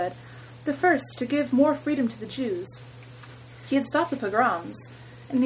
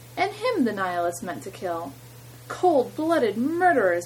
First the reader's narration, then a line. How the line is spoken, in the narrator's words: Mother cried